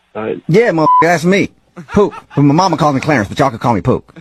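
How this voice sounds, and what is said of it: Sounds older than a teenager. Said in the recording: “you sound a little old to be one of my son's classmates”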